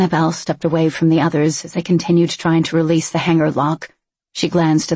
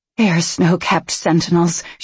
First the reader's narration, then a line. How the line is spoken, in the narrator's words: she murmured